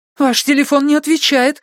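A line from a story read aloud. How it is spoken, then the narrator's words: Frightened shout. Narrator (Russian): испуганно крикнула она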